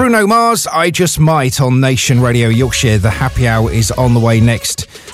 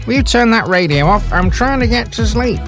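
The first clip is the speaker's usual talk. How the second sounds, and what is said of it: Imitates a woman's voice from song. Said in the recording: “a very good impression of it”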